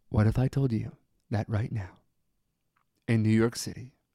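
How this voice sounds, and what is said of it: Smooth public-radio announcer voice. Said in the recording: “I have to use my NPR voice.”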